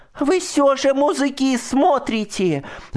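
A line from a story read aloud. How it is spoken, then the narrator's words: Shouting. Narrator (Russian): закричала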